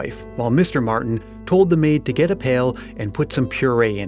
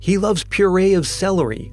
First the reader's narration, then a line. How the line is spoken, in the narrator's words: said Mrs